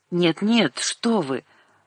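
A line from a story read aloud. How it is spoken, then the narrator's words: Mumbling. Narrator (Russian): опять забормотала она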